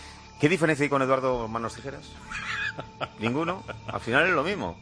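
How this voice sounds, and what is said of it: Usual voice. Nothing is said of it.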